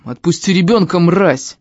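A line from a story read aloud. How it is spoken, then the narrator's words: Father shouting from above. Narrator (Russian): крикнул сверху отец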